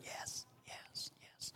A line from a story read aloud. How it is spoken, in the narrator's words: whispering